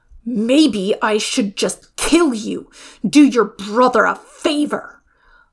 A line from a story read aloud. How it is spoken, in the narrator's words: Lao Ban snarls